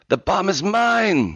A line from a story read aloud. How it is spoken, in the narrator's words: screamed